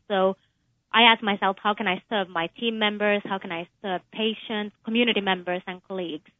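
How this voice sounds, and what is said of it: Slight Finnish-British accent. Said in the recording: “You have a bit of an accent. ... I was born in Finland, but I also spent some of my childhood in the UK.”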